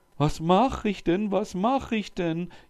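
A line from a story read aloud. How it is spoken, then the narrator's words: Wailing lament. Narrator (German): jammerte der Sultan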